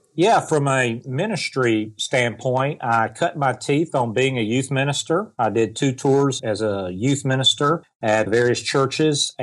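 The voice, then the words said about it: Southern US accent. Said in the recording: “I'm from the South, if you can't tell by my accent. ... a Southerner”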